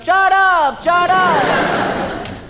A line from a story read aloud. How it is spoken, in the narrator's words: And they all yelled